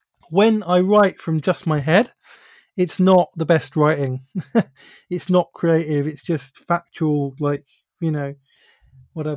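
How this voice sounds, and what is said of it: Stuffy, congested voice. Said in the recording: “I've got a bit of a cold.”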